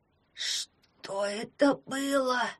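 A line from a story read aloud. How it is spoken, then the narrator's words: Terrified wheeze. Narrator (Russian): прохрипел ягун с ужасом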